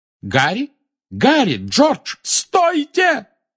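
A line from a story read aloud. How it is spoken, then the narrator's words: Shout. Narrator (Russian): кто-то рядом не выкрикнул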